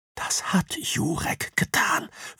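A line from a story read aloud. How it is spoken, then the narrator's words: Whispering. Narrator (German): flüstert Soga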